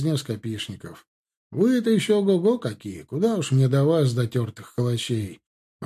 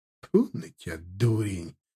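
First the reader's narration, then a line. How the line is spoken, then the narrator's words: Gruff grumble. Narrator (Russian): буркнул Южаков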